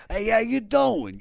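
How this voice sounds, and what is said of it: Put-on New York accent. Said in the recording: “them New York dudes, it's too it's always too early to wake up to that accent ... they all sound like Method Man”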